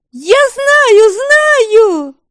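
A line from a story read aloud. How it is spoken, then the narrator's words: Wailing, excited. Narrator (Russian): Вопила Велимила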